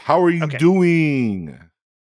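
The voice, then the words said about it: Imitates Joey's catchphrase voice. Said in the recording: “a Joey impression”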